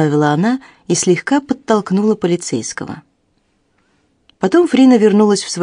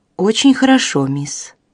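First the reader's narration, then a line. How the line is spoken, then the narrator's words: Calm girl's answer. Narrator (Russian): спокойно отвечала девочка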